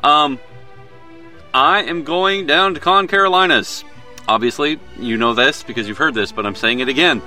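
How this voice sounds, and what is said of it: Southern US accent. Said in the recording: “my southern accent ... Sometimes it just comes out”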